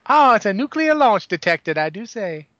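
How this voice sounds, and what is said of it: Poor put-on Southern US accent. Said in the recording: “southern sounding names ... my God, his accent's horrible ... I'm from New England, so yeah, you're not going to get a good accent out of me”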